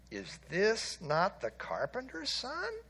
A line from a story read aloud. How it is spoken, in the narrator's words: the people murmured